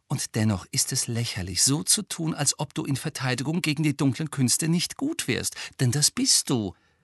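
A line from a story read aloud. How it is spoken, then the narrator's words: Gentle speech. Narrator (German): sagte Hermine sanft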